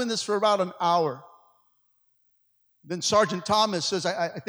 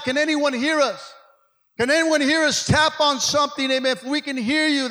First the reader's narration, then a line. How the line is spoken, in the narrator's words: shouting out